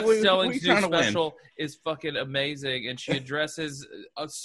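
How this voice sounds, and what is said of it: Usual voice. Nothing is said of it.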